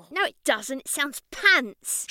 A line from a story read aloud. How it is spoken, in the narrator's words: she snapped